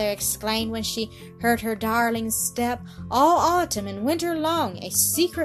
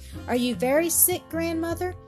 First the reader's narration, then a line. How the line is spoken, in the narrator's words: Heidi asking anxiously